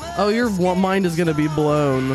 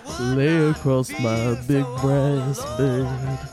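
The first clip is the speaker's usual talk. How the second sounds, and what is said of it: Imitates another person's singing voice. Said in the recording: “my true Bob Dylan impression”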